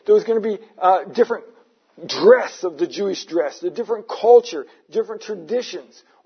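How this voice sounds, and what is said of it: Non-native accent. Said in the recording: “Sounds like you just got here yesterday. ... I don't lose my accent.”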